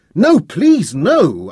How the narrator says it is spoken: I cried again

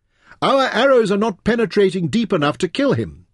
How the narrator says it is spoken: Taita shouted across at her

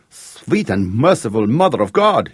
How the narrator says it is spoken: cried

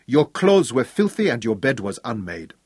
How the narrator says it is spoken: he lectured Craig sternly

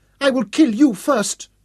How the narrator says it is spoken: Yasmini shouted back at him

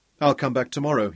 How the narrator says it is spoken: he told himself firmly

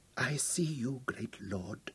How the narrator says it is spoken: she whispered

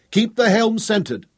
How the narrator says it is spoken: Tom shouted to Sarah

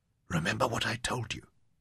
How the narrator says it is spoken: Softly, Jim called to her

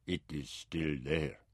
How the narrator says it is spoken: Bay said softly

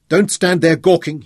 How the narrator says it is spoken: he shouted over his shoulder

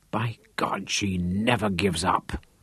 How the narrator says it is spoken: he muttered

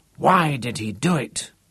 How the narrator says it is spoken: muttered Harry Hirschfeld

